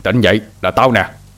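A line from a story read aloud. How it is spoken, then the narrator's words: Shouting. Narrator (Vietnamese): Hai Đèn lại quát lên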